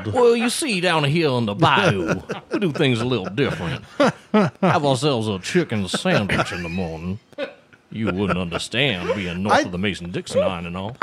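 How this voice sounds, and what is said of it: Put-on Southern US accent. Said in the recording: “I was gonna try to do a Southern accent ... I thought you were going to do a Southern accent.”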